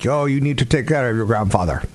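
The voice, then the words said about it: Put-on Greek accent. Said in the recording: “That's my Greek impression.”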